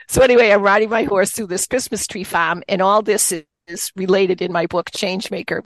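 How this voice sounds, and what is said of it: Boston accent. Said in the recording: “you're going to hear a Boston accent. Even though I live in Pennsylvania, you're going to hear the Boston accent throughout.”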